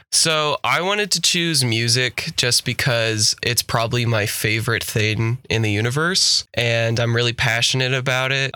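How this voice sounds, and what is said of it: Sick voice, sounds flat and sarcastic. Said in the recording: “I'm still kind of sick from last weekend, so I apologize if my voice sounds a lot more sarcastic. That's not on purpose.”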